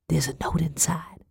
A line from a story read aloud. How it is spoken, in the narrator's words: I whispered